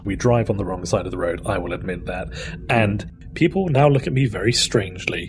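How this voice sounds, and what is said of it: British accent. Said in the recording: “I am actually British ... a British accent”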